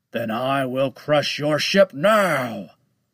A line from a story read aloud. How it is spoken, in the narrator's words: roared Lone Shark